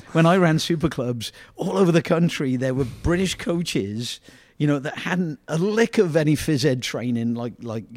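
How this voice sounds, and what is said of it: English accent. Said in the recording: “the guy with the English accent walking around impressing everybody with his European accent”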